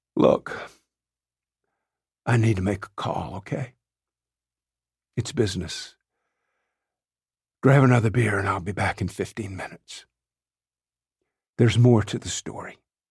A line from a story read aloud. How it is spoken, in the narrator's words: He's wiping a tear from a cheek and says in a weak voice